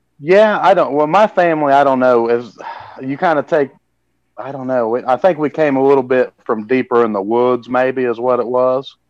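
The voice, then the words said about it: Missouri country accent. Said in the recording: “is that what everyone from Missouri sounds like? ... he doesn't have that kind of an accent”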